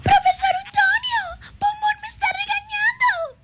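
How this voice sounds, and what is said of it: Squeaky high-pitched cartoon girl voice. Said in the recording (Spanish): “puedo hacer la voz de Burbuja ... Chilloncilla, chilloncilla”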